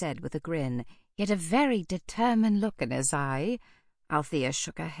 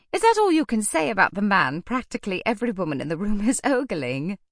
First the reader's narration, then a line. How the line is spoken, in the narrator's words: She laughed